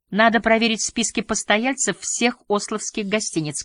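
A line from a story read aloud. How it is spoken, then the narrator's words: Plain. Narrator (Russian): сказал Харри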